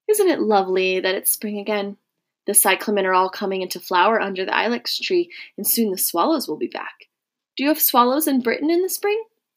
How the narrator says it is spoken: she said with a small, contented sigh

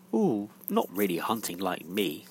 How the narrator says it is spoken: said Lou scornfully

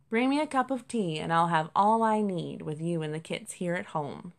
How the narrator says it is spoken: Jasper sighed

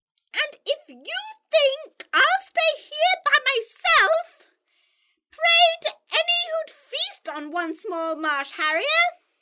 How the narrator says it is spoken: KK cried

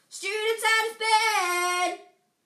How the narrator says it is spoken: Peeves bellowed

